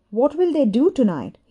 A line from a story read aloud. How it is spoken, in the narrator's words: he asked